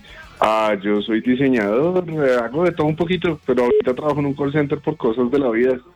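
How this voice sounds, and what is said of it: Deep announcer-like broadcast voice. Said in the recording (Spanish): “voz de locutor”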